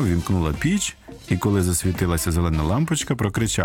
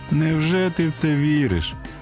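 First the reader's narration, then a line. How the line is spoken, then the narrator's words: Mocking laugh. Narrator (Ukrainian): глумливо засміялась Моніка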